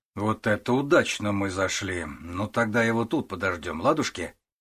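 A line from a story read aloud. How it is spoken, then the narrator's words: Cheerful question. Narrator (Russian): весело вопросил Стас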